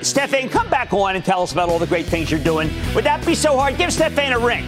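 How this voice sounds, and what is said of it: Philadelphia-area accent. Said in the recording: “I'm sorry about the accent... I was in Philadelphia. Everybody sounded just like me.”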